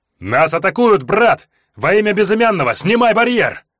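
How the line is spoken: Yelling right in face. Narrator (Russian): Заорал прямо в рожу

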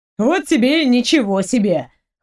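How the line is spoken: Pleased smug snort. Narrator (Russian): хмыкнул довольный произведенным эффектом Дима

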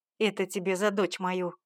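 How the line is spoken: Growl. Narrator (Russian): рыкнул Леонид

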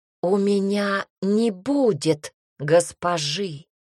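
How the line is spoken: Muffled shouting. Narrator (Russian): За зеркалом кричал

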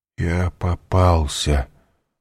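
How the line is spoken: Startled mutter. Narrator (Russian): вздрогнув, пробормотал Данглар

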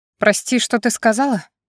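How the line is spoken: Questioning. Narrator (Russian): подтвердил мою догадку своим вопросом он

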